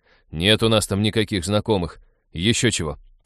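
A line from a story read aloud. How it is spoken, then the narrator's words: Grumbling. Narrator (Russian): проворчал Натан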